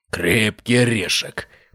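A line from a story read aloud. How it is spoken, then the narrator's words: Growled. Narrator (Russian): прорычал Бартоломей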